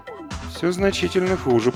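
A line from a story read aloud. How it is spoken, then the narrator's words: Muttered. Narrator (Russian): пробормотал Ильюшка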